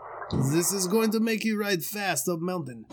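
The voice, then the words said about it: Put-on French accent. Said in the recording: “You gotta do that in a French accent. Let's see if I can do French.”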